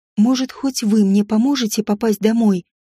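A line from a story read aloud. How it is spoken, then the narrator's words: Quiet. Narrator (Russian): произнесла я тихо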